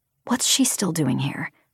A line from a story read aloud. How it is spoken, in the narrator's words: whispered